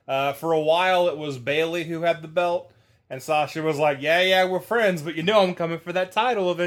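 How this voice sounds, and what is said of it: Usual voice. Nothing is said of it.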